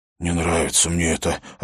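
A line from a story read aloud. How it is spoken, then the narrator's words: Worried mutter. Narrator (Russian): обеспокоенно пробормотал Хорос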